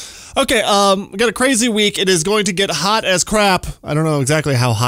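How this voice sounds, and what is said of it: Usual voice. Nothing is said of it.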